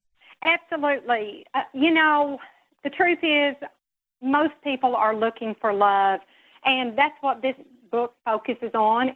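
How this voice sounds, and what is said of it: Southern American accent. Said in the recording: “You have a great Southern accent”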